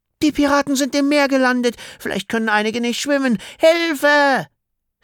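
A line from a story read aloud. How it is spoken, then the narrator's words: Desperate shriek. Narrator (German): Clara kreischte verzweifelt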